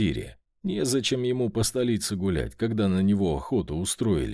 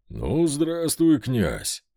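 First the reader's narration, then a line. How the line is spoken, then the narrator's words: Deep bass voice. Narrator (Russian): пробасил Пожарский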